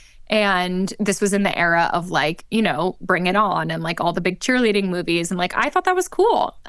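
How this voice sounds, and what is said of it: American accent. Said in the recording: “obviously I sound so American”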